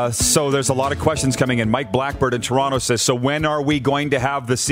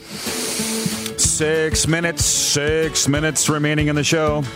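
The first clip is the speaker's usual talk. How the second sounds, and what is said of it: Public address announcer voice. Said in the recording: “my public address announcer imitation”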